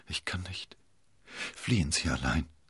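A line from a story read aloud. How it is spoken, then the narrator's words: Weak stammering. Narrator (German): Konstanze sackten die Knie ein und sie stammelte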